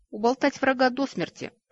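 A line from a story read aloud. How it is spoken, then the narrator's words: Laughing young man. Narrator (Russian): рассмеялся парень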